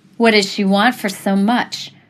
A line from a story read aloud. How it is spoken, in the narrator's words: scoffed